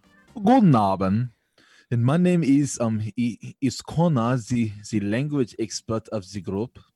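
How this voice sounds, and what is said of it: Put-on German accent. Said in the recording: “I can do a German accent.”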